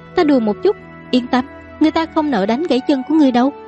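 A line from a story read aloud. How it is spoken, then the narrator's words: Woman laughing, speaking. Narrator (Vietnamese): Nàng bật cười một tiếng, nói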